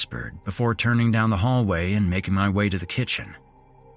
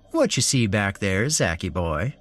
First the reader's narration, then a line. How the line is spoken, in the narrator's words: Larry said in a playful voice